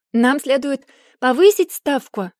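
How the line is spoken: Exclaimed. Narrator (Russian): воскликнула Бекка

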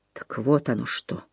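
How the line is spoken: Quiet. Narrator (Russian): тихо сказал

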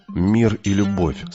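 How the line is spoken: Plain. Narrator (Russian): сказал я

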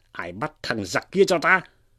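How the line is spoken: Hurried shout. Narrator (Vietnamese): Cao Liêm thế vậy vội quát lên

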